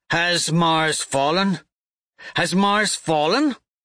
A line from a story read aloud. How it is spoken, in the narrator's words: He sneers